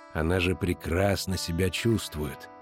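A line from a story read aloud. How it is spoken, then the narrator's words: Soft interruption. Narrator (Russian): мягко прервал Коэн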